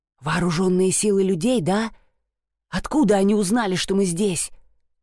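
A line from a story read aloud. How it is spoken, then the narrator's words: Hissed. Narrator (Russian): прошипел Эш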